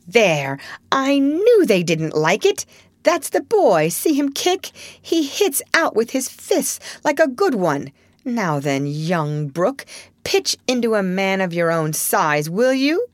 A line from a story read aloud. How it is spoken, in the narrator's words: cried Laurie, delighted with a poke in the face from a tiny fist flapping aimlessly about